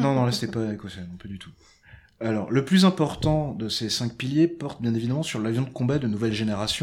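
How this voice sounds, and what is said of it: Usual voice. Nothing is said of it.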